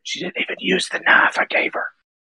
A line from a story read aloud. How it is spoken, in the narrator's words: whisper